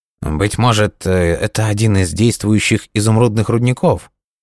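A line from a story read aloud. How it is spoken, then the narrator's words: Uncertain suggestion. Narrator (Russian): неуверенно предположил Мароний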